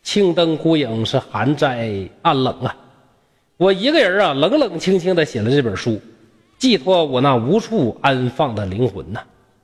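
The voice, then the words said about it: Northeastern Chinese dialect. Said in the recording (Chinese): “以上呢，就是我用东北话呀给大家。讲的《聊斋志志》啊”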